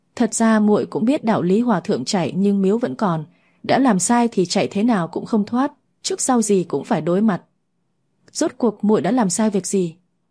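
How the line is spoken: Sighing. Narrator (Vietnamese): bấy giờ mới thở dài nói

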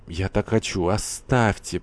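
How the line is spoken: Moaning. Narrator (Russian): простонала Лариса

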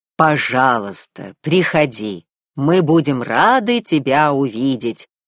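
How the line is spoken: Booming voice. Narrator (Russian): прогремел царь Тритон

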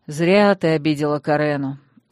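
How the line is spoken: Tired remark. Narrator (Russian): устало заметил магистр

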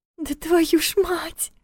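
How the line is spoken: Thin whimpering voice. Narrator (Russian): тонким голосом проскулила Лиля

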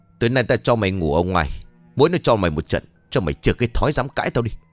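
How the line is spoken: Cold hiss. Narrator (Vietnamese): Cô ta miệng lạnh lùng rít lên

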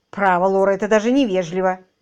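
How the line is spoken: Angry. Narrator (Russian): сердито сказала мисс Эдамс

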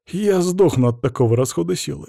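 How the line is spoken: Scoffing. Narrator (Russian): хмыкнул я

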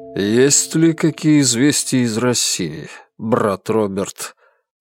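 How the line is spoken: Muffled male voice. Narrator (Russian): Голос мужчины глухо прозвучал из-под капюшона

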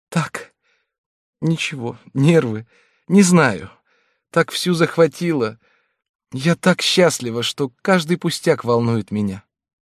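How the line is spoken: Slightly trembling voice. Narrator (Russian): Она слегка дрожащим голосом сказала

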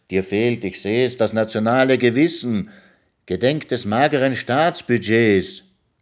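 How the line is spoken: Gentleman calling out. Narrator (German): rief der Herr

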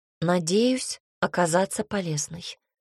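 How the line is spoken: Calm reply. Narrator (Russian): ответила спокойно

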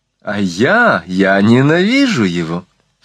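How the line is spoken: Laughing exclamation. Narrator (Russian): вскричала Нахшидиль, смеясь

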